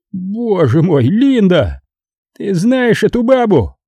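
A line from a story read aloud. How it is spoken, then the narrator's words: Moaned. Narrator (Russian): Тони Квазо простонал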